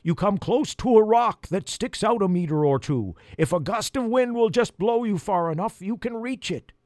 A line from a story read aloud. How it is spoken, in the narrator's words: he yelled